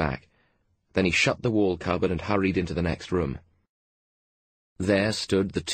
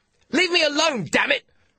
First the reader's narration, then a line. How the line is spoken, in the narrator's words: shouted Carr